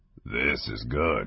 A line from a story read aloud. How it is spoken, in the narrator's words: he mumbled